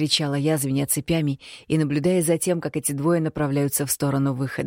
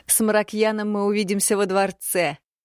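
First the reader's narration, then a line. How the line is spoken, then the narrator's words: Laughing. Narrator (Russian): рассмеялась Роксана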